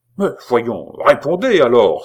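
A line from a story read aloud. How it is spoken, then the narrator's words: Exasperated exclamation, queen. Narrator (French): s'écria la reine exaspérée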